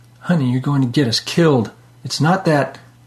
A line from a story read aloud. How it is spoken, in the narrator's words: Gasping, Liz replied